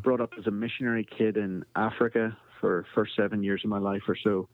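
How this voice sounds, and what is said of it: Northern Irish accent. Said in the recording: “you can hear from my accent, I'm not from Texas. ... I am from Belfast, Northern Ireland”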